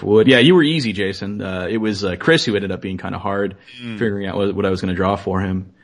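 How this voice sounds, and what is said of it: Deep, worn-out radio voice. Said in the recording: “you have quite the radio voice. You got like a sexy voice. ... I'm still reeling from having spoken for 5 solid days. So I don't normally sound this way.”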